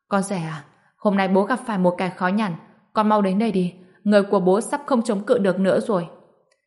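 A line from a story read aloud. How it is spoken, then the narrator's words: Raised urgent voice. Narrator (Vietnamese): Ông ta cao giọng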